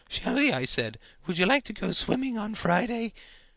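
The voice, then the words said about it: Cracking voice between bass and falsetto. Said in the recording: “I've been practicing my deep voice all morning ... the deep voice. God with a throat cold ... I lost it asking her out. I wobbled ... imitated the preteen gargle of bass and falsetto”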